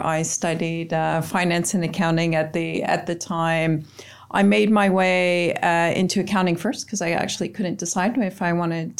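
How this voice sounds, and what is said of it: Canadian accent. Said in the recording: “unmistakable Canadian accent”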